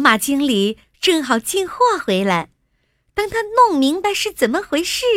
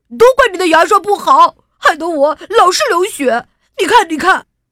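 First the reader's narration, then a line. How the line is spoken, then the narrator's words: Shouted. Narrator (Chinese): 他冲着店里吼道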